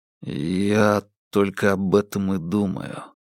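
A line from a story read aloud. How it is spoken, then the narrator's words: Barely audible. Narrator (Russian): еле слышно добавил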